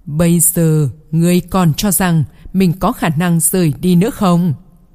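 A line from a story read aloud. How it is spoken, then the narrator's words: Laughing, voice turning demonic. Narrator (Vietnamese): Ma Ha càng cười lớn hơn, giọng nói của hắn đột nhiên thay đổi, trong đó lộ ra một chút ma tính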